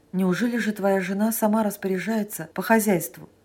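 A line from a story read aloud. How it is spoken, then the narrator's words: Plain. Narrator (Russian): спросил Санин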